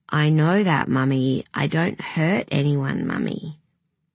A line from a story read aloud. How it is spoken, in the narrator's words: he just said in a monotone